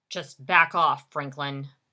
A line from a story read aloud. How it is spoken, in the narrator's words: Jerry said through gritted teeth